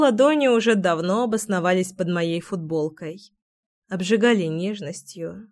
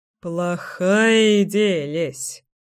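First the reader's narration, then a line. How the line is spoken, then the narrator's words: Snorting, wry. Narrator (Russian): хмыкнул Кирилл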